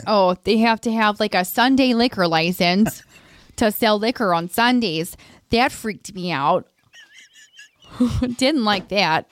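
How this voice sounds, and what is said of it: Put-on Wisconsin accent. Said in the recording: “your Wisconsin accent”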